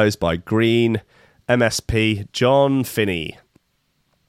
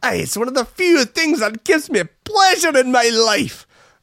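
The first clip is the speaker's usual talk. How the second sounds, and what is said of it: Bad put-on Scottish accent. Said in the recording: “This is the worst Scottish accent ever.”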